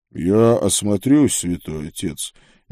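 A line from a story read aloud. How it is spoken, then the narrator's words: Quiet speech. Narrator (Russian): негромко сказал брат Курвус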